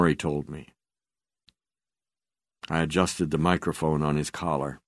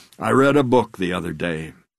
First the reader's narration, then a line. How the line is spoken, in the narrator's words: he said